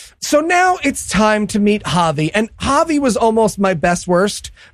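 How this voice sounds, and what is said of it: Usual voice. Nothing is said of it.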